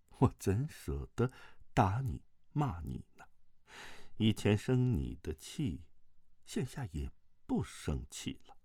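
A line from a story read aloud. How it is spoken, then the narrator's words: Soft, tender voice. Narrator (Chinese): 慕容复不由得心神荡漾，柔声道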